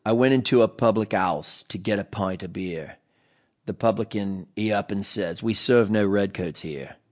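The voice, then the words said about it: Put-on Cockney English accent. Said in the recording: “I may throw in a few English accents here and there, but don't judge me if my Cockney's not good.”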